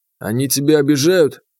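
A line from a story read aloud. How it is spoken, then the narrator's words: Doubtful snort. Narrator (Russian): Я недоверчиво хмыкнул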